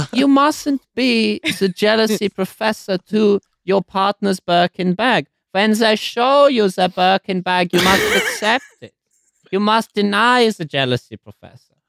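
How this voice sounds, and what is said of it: Put-on German-Austrian accent. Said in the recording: “in your Nazi voice? ... quite sort of like Austrian psychology ... It's Freud.”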